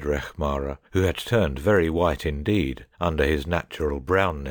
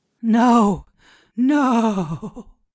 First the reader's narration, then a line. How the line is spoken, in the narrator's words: cried the priest in terror